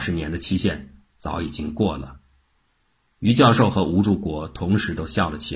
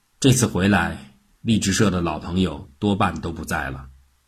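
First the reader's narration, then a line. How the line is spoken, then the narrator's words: Thoughtful sigh. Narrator (Chinese): 若有所思地叹了一口气，说道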